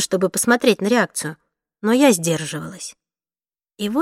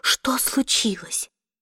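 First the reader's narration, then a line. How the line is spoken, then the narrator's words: Theatrical whisper. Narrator (Russian): спрашивал у меня театральным шепотом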